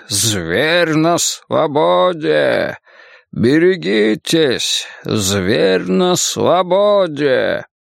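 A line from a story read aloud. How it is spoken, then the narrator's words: Hollow disembodied wailing voice. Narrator (Russian): гробовой бестелесный голос вопил в пространстве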